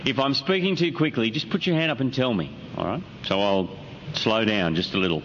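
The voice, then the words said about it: Slight Australian accent. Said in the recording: “I have a very slight Australian accent”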